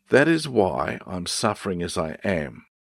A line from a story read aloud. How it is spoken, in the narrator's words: said Paul